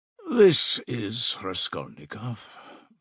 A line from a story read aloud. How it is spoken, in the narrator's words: mumbled Zossimov